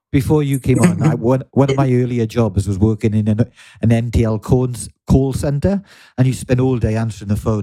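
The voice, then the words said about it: Welsh accent. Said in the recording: “I'm almost losing my Welsh accent. ... No, you've still got it, man.”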